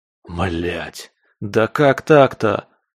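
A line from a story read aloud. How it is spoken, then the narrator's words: Groaning. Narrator (Russian): простонал я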